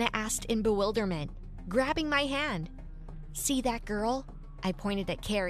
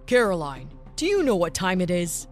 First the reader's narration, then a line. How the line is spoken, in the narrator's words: Menacingly asked the father